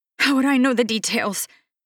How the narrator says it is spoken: She pants

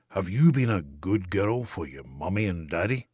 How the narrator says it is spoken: in a deeper, more rumbling voice than he usually used

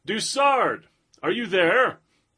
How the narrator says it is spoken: Legree shouted up

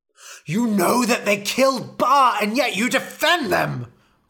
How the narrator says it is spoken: cried Ra

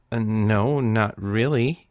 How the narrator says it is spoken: he stammered

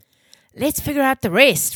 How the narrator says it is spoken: Rome shouted

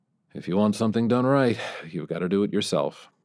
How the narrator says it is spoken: the president mumbled

